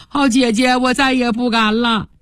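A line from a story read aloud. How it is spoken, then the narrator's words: Crying, pleading. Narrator (Chinese): 哭着央告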